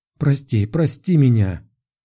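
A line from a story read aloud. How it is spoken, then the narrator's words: Tearful exclamation. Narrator (Russian): полные слез глаза, воскликнула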